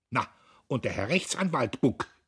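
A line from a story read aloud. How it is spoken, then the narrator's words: Shrieking. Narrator (German): kreischte Kühnchen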